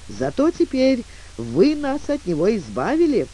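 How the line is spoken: Relieved grateful young woman. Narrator (Russian): воскликнула юная дама с облегчением и с полной благодарностью улыбкой

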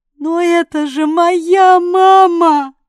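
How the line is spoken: Moan. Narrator (Russian): Простонала

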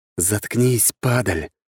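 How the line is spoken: Pitiless hiss. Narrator (Russian): зашипел я, не испытывая к нему никакой жалости

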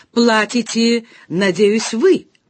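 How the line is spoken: Growled. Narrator (Russian): прорычал он

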